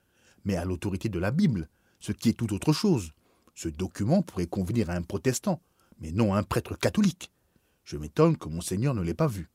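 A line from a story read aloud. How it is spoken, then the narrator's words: Curt voice. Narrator (French): dit-il d'une voix brève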